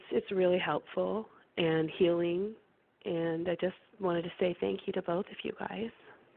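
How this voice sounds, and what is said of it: Hoarse, fading sick voice. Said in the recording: “I'm sick, so I'm losing my voice”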